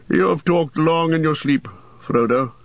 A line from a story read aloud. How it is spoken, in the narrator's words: said Gandalf gently